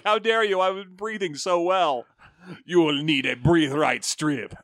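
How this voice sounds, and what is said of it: Bane villain voice, unclear accent. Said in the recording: “I don't know what my accent is. It is my full understanding that I am South American.”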